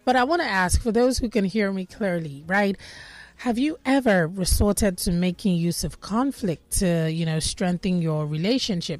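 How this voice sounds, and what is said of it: Voice affected by a cough. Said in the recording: “pardon my voice. ... This cough of mine hopefully is going to go”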